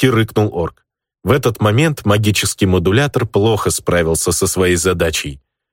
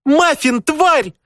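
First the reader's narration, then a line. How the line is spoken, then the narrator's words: Shrieking right in ear. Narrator (Russian): завизжала мне прямо в ухо Аринка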